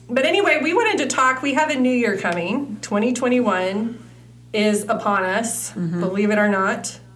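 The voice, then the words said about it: Slightly raspy voice. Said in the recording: “I sound a little raspy today. I have a cold.”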